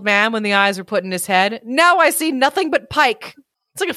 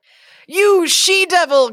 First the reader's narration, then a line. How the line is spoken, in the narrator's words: cried Johnny